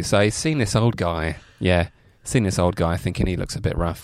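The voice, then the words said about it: Noticeable regional accent. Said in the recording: “I was so distracted by your accent.”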